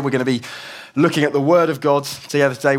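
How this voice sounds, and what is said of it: Croaky voice. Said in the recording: “my voice is a little bit croaky. I've been battling with a bit of a cold”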